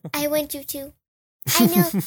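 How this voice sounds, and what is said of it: Cute little girl voice. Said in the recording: “My voice is so cute. ... the little girl”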